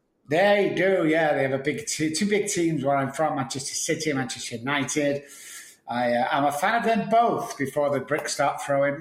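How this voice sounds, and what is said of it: Manchester English accent. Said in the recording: “as you can tell by my accent, I'm not from Dallas. No, I'm from Manchester, United Kingdom”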